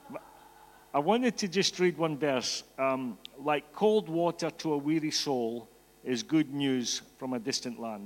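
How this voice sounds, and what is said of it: Scottish accent. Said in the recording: “I'm Scottish, in case you didn't get the accent, okay? It's definitely not the same accent as Ken”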